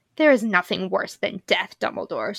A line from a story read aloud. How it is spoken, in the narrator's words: snarled Voldemort